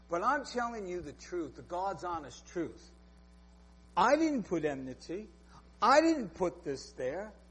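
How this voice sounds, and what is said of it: New York accent. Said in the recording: “You might not like my New York accent”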